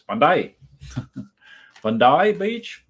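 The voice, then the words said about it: Put-on Australian accent. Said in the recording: “With my Australian accent, which is very polished.”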